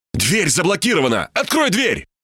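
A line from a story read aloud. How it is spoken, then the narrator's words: Shouting. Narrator (Russian): крикнул я Ибе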